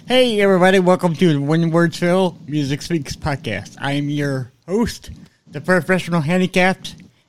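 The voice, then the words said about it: Voice sounding like a Muppet character. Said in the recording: “My voice sounds like Scooter from the Muppets.”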